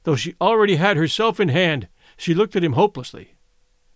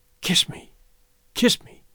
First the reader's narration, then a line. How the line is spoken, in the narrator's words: she whispered, her face lighting